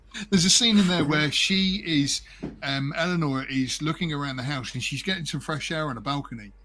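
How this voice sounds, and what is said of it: Noticeable regional accent. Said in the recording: “When you say masterclass in my accent, it sounds good.”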